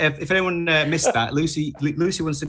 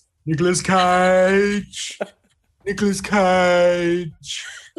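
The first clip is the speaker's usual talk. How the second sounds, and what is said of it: Nicolas Cage impression. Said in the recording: “did an impression of Nicolas Cage that went like this”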